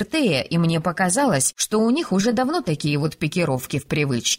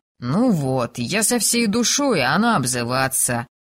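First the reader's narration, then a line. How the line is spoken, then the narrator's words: Offended drawl. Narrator (Russian): Обиженно протянул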